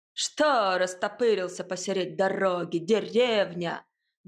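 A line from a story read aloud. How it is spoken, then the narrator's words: Gruff bellow, rough man. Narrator (Russian): гаркнул какой-то мужик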